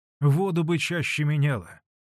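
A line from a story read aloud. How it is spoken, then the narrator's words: Displeased voice. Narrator (Russian): недовольным голосом проговорила Манефа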